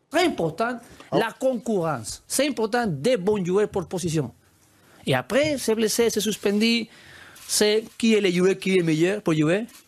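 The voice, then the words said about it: Strong non-native accent in French. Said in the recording (French): “un coach qui a très vite appris le français, mais qui a été moqué pour son accent”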